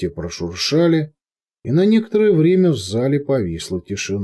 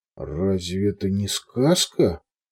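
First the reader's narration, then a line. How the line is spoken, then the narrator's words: Forced out. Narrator (Russian): выдавил, наконец, Густав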